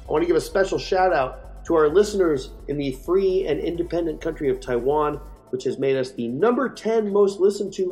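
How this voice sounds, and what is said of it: Voice sounds a little strange, clogged. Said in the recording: “my voice sounds a little strange this week, it's because my ears are more clogged than your feed ... I can sort of hear and I can sort of talk”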